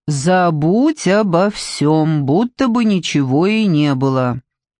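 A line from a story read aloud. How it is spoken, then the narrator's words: Drawled. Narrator (Russian): Светлана протянула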